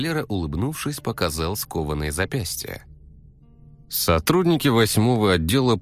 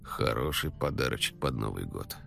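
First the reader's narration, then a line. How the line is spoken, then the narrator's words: Grumbled. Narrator (Russian): буркнул Николай Николаевич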